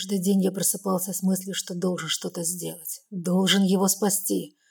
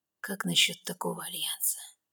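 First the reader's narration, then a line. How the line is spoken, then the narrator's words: Conspiratorial whisper. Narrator (Russian): шепчет заговорщицким тоном блондин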